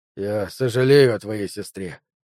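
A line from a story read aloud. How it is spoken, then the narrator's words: Weary. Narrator (Russian): устало проговорил он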